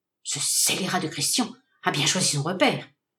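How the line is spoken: Anxious murmur. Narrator (French): murmura-t-il angoissé

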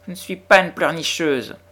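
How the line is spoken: Whining. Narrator (French): gémit Lottie

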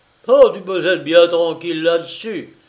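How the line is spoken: Laughing exclamation. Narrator (French): s'écria Denner en riant

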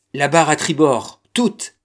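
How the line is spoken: Shouted command. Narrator (French): cria le capitaine

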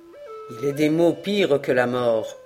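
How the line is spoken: Somber, annoyed voice. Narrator (French): dit Duncan d'une voix sombre et comme importuné de ses sollicitations

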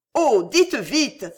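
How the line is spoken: Queen exclaiming. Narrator (French): s'écria la reine

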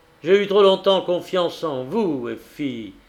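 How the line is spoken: Harsh exclamation. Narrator (French): s'écria-t-il durement

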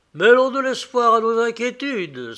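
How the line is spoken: Exclaiming. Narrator (French): s'exclama-t-il

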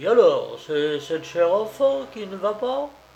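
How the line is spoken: Exclaimed. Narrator (French): apercevant tout à coup le pansement qui lui recouvrait une partie du front, il s'exclama

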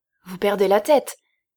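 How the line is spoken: Judge, trembling with astonishment. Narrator (French): s'écria le juge tout tremblant de stupéfaction

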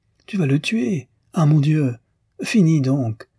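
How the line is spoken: Exclaiming. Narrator (French): s'écriait Madame Arnoux

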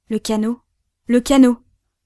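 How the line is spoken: Sudden cry. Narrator (French): s'écria tout à coup Jem West

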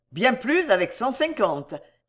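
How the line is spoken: Cold retort. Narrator (French): répliqua Jingle froidement

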